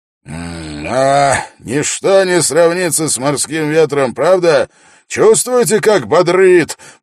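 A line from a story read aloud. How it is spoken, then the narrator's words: Roaring. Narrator (Russian): проревел Свенгл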